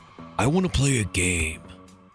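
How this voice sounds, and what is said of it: Jigsaw voice from Saw. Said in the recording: “I even did the voice there. ... Saw.”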